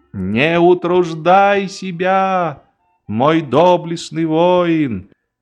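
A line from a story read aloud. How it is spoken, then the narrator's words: Exclaimed. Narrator (Russian): воскликнул фельдмаршал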